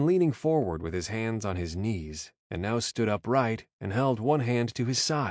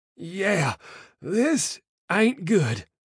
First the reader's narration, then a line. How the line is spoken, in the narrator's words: Antonio gasped